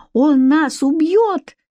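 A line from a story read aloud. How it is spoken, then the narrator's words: Frightened squeak. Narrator (Russian): пискнула она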